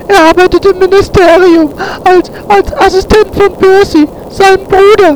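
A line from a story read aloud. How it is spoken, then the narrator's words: Sobbing. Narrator (German): schluchzte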